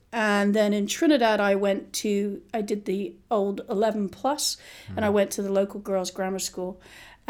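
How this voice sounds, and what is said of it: Mixed British and international accent. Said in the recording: “I have a sort of mishmash of an accent, but I am British.”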